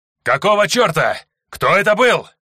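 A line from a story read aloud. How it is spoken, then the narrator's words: Commander shouting. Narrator (Russian): кричал командир второго отряда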